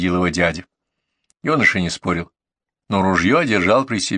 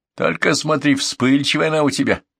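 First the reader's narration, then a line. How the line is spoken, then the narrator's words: Chuckling after pause. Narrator (Russian): помолчав, хохотнул и добавил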